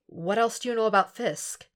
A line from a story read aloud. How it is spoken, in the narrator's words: The Marine only sighs